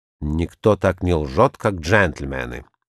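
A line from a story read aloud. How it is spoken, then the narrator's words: Low grumble. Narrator (Russian): в полголоса проворчал Сомс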